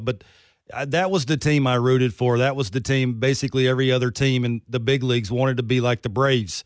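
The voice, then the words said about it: Virginia Southern accent. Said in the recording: “I grew up in Virginia, obviously with the accent. I talk a little funny.”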